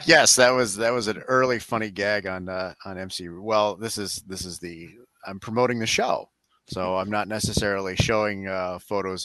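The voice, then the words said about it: Smooth radio announcer-style voice. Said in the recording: “you have a very good radio voice ... if you had a radio show, your voice would fit in perfectly ... I had a podcast voice or an audiobook voice”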